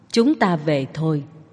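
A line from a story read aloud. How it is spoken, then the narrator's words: Quiet. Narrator (Vietnamese): Phạm Già La ... nhỏ giọng nói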